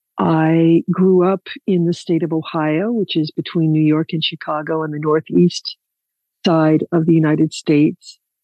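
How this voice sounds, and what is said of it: American accent. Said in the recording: “probably you can tell already by my accent that I'm American”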